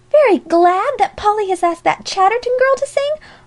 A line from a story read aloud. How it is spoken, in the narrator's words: almost shrieked Alexia